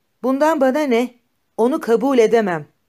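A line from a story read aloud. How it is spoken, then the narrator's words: Shouted. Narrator (Turkish): diye bağırdı Darya Alexandrovna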